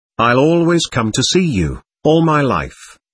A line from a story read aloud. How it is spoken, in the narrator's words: answered Alishaw firmly